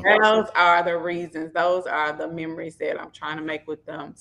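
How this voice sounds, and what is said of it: Memphis Southern American accent. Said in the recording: “your Memphis accent. I loved it. You're just authentic”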